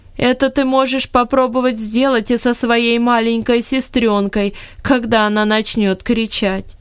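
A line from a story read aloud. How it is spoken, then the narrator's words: Loud laughing. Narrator (Russian): громко рассмеялась и сказала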